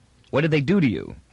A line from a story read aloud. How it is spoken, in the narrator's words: asked Toran quickly